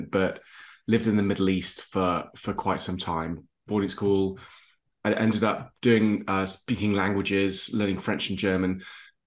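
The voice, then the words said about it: English accent. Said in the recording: “I was born in England. You can tell from my accent”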